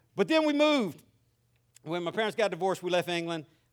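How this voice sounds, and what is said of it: Mixed Southern and English accent. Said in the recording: “where my accent is from... It's either from Southern California, rural Louisiana, or England.”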